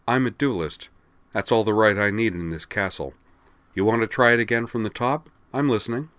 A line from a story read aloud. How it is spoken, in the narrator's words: replied flatly